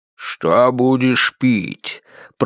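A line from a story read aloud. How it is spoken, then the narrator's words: Deep booming monster voice. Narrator (Russian): пробасило чудище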